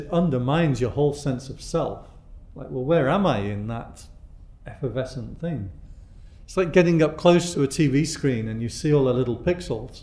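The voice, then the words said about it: British accent, like Downton Abbey. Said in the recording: “they'd always hear my accent and say, oh my God, you sound like someone of Harry Potter. And now they say, oh my God, you sound like someone of Downton Abbey”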